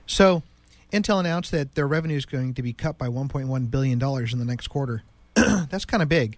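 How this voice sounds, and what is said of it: Sick-sounding, damaged voice. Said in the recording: “sorry about my voice. I've been sick. I just can't seem to get my voice back.”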